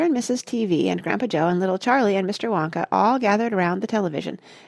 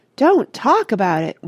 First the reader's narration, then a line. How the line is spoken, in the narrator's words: wailed Mrs